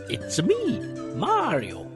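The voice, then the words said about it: Poor impression of Mario voice. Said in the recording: “terrible impression,”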